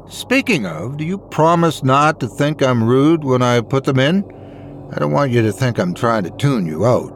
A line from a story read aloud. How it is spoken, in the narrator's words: I asked her